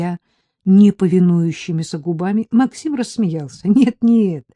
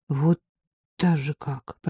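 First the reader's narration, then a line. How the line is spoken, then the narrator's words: Mumbled. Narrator (Russian): пробормотала я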